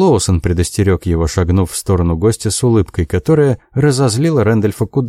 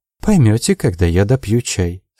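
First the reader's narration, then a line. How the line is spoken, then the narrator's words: Sweet voice. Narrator (Russian): сладким голосом сказала Джози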